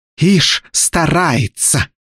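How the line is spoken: Spitting hiss. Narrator (Russian): брызжа слюной прошипела Желтея

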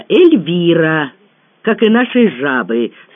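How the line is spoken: Calm. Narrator (Russian): спокойно сообщил Аркадий

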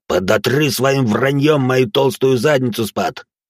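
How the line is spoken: Growled reply. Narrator (Russian): прорычал в ответ модификант

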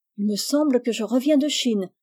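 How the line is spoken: Exclaiming. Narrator (French): s'écria Rose

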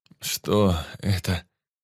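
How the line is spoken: Moaning. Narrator (Russian): простонал

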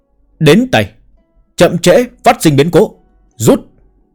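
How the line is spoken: Old man's loud shout. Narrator (Vietnamese): Người ông lão lớn tiếng hét một tiếng

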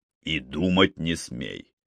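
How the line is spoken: Mock-stern, laughing joyfully. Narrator (Russian): грозно проговорил он, хохоча вместе с ней, захваченный ее безудержной радостью

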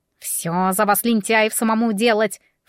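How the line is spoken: Snorting. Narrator (Russian): фыркнул Мион

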